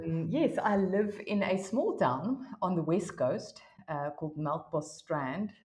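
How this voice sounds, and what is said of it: South African accent. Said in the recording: “we can tell from the accent, you're based in South Africa”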